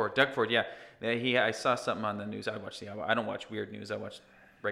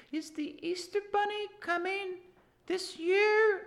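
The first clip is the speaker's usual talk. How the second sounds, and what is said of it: Five-year-old child's voice. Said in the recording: “that's my impression of a 5-year-old ... You did a 5-year-old voice”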